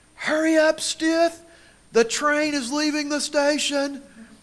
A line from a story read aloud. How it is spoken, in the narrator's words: Coach Randy Brewer was screaming at us